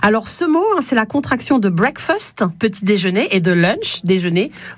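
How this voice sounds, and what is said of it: English words said in English accent. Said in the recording (French): “Vous avouerez ce bel accent anglais qui est le mien.”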